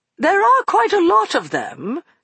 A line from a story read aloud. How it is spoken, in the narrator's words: she said in an uncertain voice